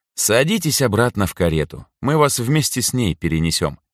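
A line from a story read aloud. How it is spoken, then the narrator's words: Calm. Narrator (Russian): спокойно произнесла Анжелика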